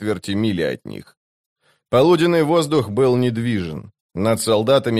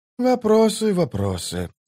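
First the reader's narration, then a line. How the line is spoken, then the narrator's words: Sighing. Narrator (Russian): вздохнул Колот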